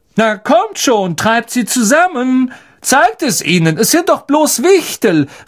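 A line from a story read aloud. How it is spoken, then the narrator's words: Called out. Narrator (German): rief Lockhart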